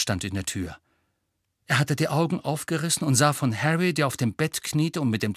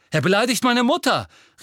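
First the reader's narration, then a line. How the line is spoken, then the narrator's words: Calling out. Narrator (German): rief Seamus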